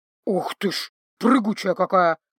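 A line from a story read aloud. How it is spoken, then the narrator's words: Grumbling. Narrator (Russian): проворчал Павоне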